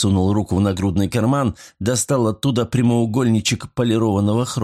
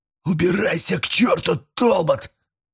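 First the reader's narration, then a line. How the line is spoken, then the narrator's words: Half groan, half shout. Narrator (Russian): То ли простонал, то ли крикнул он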